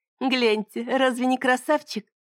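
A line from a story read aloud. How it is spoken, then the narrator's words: Laughing. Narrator (Russian): Она рассмеялась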